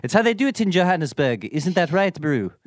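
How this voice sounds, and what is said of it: Terrible put-on accent. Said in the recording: “That's a terrible accent.”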